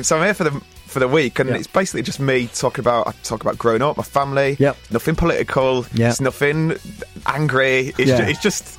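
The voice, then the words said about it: Northern English accent. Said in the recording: “my northern accent will translate down south”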